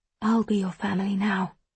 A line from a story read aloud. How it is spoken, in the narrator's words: I whisper